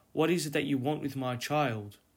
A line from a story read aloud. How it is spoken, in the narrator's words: Maria, in her amazement, called out